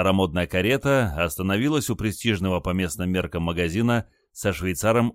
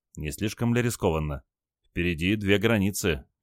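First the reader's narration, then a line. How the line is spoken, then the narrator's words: Quiet question. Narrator (Russian): тихо спросил Олег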